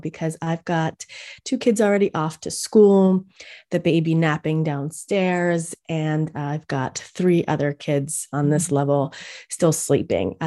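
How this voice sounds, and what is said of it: Sexy radio voice. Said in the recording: “I'm going to use my sexy radio voice right now”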